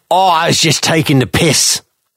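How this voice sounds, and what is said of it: Orwell imitated in Cockney accent. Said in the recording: “Is that what Orwell's accent was like in your head ... I didn't realize he was Cockney.”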